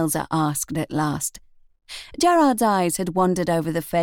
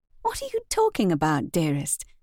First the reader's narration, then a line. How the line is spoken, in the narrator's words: Demelza asked, in her sweet voice